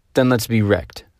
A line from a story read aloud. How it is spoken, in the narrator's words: said the parson coldly